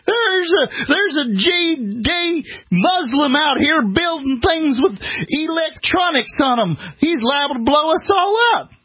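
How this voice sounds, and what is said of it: Put-on Georgia redneck accent. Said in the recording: “my Georgia accent. ... that's a good redneck accent.”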